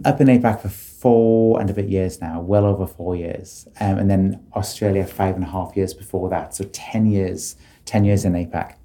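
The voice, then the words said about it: British accent. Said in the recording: “people can probably tell by your accent that you're British”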